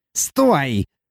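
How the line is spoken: Shrill dwarf squeal. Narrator (Russian): взвизгнул карлик

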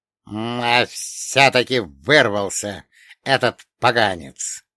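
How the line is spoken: Displeased hiss. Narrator (Russian): недовольно прошипел мертвец

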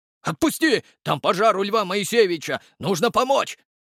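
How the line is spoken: Passerby yelling. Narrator (Russian): завопил прохожий

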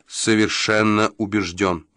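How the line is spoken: Clipped emphatic. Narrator (Russian): отчеканил Джо

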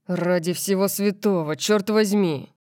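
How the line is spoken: Growl. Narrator (Russian): прорычал Макс

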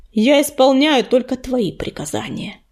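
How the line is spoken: Angry growl. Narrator (Russian): гневно прорычал он

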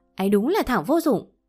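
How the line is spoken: Angry. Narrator (Vietnamese): Mi tức giận nói

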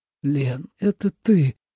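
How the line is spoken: Near-tearful exclamation. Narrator (Russian): Едва ли не плача воскликнул Тоби

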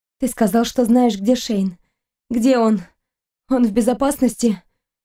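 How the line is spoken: Dry, hoarse voice. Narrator (Russian): Ее голос звучал сухо и хрипло

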